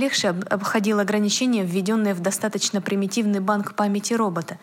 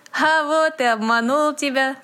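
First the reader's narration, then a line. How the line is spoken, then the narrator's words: Laughing. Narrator (Russian): засмеялся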